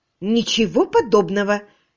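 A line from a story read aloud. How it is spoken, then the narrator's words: Angry objection. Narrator (Russian): сердито возразила Агата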